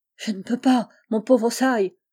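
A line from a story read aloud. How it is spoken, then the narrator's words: Broken, halting voice. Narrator (French): répliqua-t-il d'une voix entrecoupée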